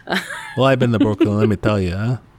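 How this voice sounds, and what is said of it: Put-on Brooklyn accent. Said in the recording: “That's where you got that great authentic accent.”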